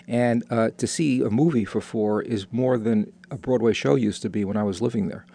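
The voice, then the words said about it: New York accent. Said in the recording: “I just came back from a visit to New York, which, believe it or not, from my accent, you might note that I'm from.”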